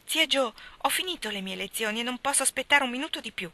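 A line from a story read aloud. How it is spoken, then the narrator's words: Excited exclamation, rushing in. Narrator (Italian): esclamò precipitandosi nella stanza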